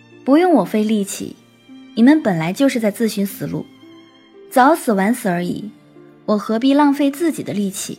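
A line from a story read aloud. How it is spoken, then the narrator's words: Cool, indifferent reply. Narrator (Chinese): 天树幽花淡淡的回答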